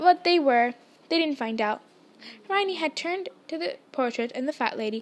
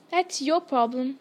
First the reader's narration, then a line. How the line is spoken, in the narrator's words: said Ron